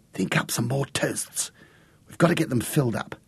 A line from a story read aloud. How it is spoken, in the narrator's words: whisper